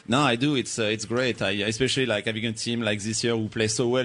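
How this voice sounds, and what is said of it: French accent in English. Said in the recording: “to have my still my French accent ... we love your accent ... it would sound sexy coming out of his mouth”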